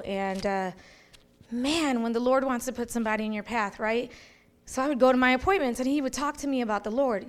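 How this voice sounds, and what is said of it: Chicago accent. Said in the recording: “That's where we're originally from, is Chicago, as you can tell by our accents.”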